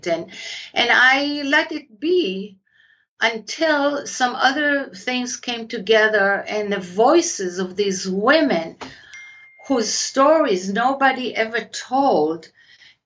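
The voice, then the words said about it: Israeli accent. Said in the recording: “My accent is Israeli”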